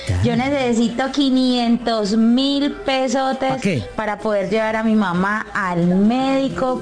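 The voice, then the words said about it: Colombian Medellín-area regional accent. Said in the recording (Spanish): “Me gusta ese acento, ¿Medellín o es Manizales? ¿O viene siendo Armenia o viene siendo Pereira?”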